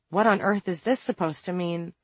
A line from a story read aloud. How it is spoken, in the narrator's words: Jet said anxiously